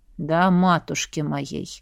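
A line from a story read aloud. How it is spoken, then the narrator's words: Blacksmith's grumble. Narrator (Russian): проворчал кузнец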